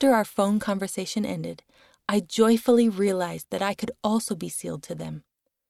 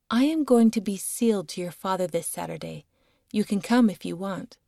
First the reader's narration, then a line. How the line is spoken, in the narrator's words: she called me one day and calmly said